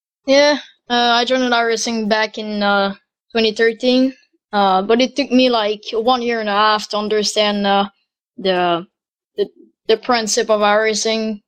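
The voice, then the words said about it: Young-sounding male voice. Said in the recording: “You sound a bit young. ... I sound very young”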